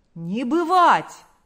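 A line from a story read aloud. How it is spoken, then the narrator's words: Many shouting in unison. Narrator (Russian): закричали все в один голос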